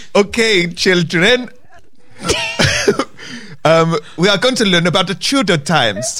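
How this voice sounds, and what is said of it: Badly done put-on accent. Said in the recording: “I sound deaf... I'm so bad at accent. They all sound a bit wrong.”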